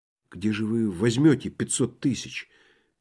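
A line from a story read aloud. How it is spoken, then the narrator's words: Quiet question. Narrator (Russian): тихо спросил Балаганов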